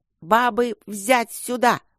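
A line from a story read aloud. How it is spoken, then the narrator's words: Shrill overseer's voice. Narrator (Russian): визгливый голос давешнего надзирателя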